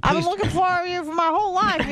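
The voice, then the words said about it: Exaggerated imitation of another person's voice. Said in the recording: “impersonation of me is just way ... accurate, ... over the top.”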